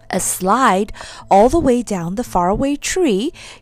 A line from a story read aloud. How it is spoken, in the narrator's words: cried Joe, hardly believing his ears